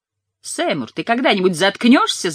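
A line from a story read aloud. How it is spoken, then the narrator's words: Yelled. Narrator (Russian): заорал Майкл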